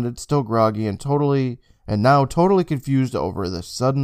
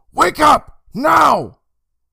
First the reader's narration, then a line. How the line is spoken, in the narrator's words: Emma lowered her mouth to his ears and shouted